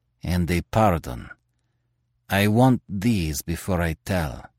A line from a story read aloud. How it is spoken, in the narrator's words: he said sullenly